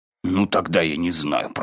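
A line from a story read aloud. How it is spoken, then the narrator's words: Muttered. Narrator (Russian): пробормотал Пух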